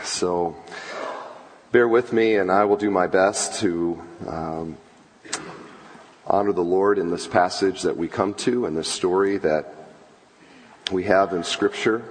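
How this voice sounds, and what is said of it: Strained, unwell-sounding voice. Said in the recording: “I am a little under the weather, and my voice is not good today.”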